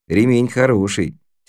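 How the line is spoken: Clever tone, youngster. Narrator (Russian): тем же умным тоном сказал малек

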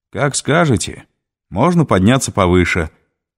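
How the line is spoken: Barked reply. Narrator (Russian): гаркнул в ответ пилот

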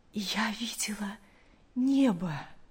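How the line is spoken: Weak but joyful. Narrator (Russian): мать слабым голосом, но с огромной радостью сказала

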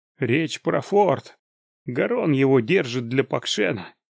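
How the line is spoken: Said through clenched teeth. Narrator (Russian): процедила Нарей

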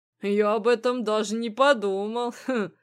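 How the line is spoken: Blacksmith chuckling. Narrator (Russian): хохотнул кузнец

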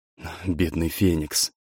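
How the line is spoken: In an undertone. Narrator (Russian): сказал офицер вполголоса

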